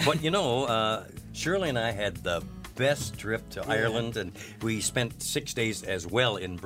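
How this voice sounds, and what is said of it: Usual voice. Nothing is said of it.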